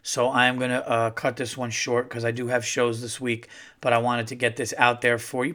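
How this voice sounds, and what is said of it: Hoarse, fading voice from illness. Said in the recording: “I'm a little under the weather. My voice is going.”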